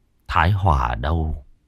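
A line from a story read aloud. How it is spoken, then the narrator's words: Muttering. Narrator (Vietnamese): Thái Hưng lẩm bẩm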